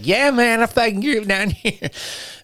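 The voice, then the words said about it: Put-on Florida accent. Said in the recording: “you don't have that Florida accent. ... You don't talk like this.”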